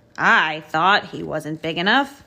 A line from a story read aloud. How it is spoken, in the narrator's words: boomed Digger